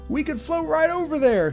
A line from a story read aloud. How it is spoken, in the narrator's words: he cried